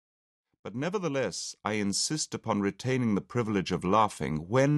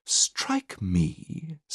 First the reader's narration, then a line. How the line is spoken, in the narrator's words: said the other, turning sharply round and surveying the young man with as much astonishment as contempt